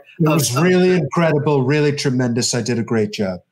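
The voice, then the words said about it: Imitates another person's voice. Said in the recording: “you do a really good Trump impression.”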